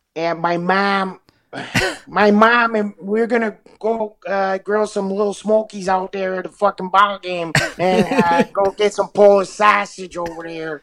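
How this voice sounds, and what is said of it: Put-on white Chicago accent. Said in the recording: “like a white Chicago accent”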